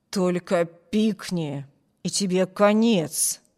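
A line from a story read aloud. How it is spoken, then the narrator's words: Hoarse threat. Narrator (Russian): прохрипел Харпер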